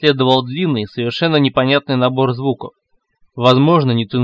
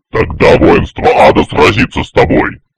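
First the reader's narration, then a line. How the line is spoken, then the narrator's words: Thundering voice. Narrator (Russian): Прогремел великий, богам известный как Сатан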